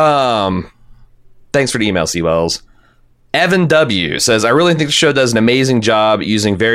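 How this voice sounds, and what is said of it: Usual voice. Nothing is said of it.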